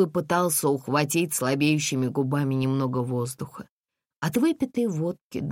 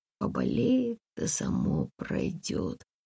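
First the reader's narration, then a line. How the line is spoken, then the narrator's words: Muttered under breath. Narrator (Russian): пробормотала Комарова себе под нос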